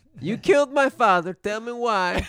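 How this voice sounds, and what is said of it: Movie-line accent drifting into Borat voice. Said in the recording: “spoken in an accent... Just turns into Borat last minute”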